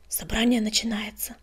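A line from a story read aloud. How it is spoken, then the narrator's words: Explaining. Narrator (Russian): пояснил он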